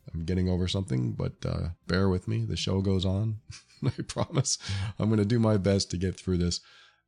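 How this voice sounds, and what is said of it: Stuffy, congested voice. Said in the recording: “I sound a bit stuffy,”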